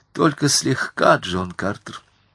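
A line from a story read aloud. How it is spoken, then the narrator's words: Sad reply. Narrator (Russian): ответила она печально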